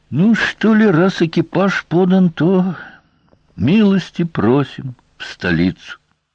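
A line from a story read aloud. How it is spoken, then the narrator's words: Resigned sigh. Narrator (Russian): Сварог вздохнул, обреченно сказал лейтенанту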